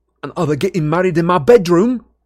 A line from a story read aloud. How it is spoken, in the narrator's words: asked Ron furiously